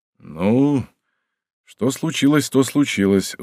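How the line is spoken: Sigh. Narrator (Russian): вздохнул он

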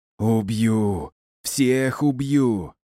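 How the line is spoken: Spluttering furious growl. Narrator (Russian): брызгая слюной, прорычал фройлин

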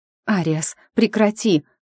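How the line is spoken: Sharp exhale. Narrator (Russian): Я резко выдохнула

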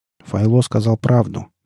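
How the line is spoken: Soft. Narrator (Russian): мягко произнес Батник

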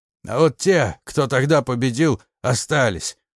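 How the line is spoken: Stubborn, through gritted teeth. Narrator (Russian): упрямо выдавил он сквозь зубы

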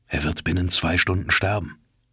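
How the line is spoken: Hesitant murmur. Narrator (German): Zuerst zögerte ich, doch dann raunte ich

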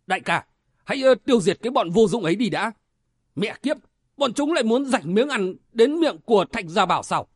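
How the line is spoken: Big man's shout. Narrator (Vietnamese): Tên đại hán áo vàng quát lên một tiếng

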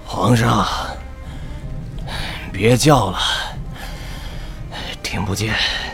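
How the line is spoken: Panting. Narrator (Chinese): 谢红轩背部一片血肉模糊，他喘着气

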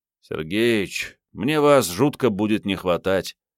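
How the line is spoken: Sighing. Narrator (Russian): Генка вздохнул

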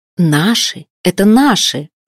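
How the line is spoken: Exclaimed. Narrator (Russian): воскликнула она

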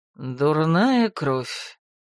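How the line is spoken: Cold, through teeth. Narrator (Russian): без улыбки процедил Ролан

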